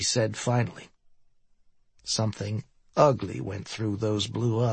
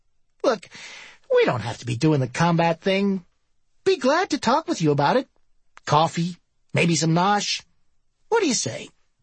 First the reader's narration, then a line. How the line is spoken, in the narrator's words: She sneered